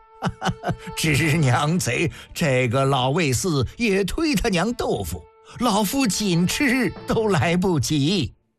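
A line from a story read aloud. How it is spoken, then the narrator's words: Angry laughing scolding. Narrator (Chinese): 魏冉又气又笑，不断笑骂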